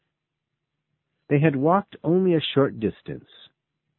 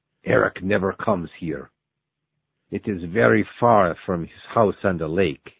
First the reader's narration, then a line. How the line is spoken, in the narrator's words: he said